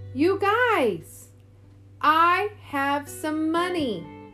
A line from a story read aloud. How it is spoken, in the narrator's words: yelled